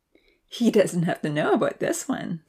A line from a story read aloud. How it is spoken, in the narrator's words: Santa laughed